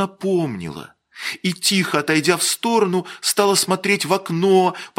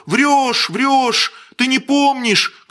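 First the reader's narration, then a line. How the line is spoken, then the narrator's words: Shouting. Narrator (Russian): кричали ей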